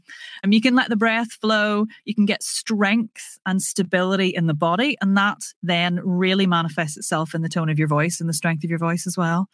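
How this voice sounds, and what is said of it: Rich Northern Irish lilt. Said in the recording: “you have this wonderful, rich Northern Irish lilt”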